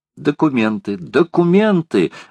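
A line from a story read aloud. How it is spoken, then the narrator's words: Exclaimed. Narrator (Russian): воскликнула леди Элен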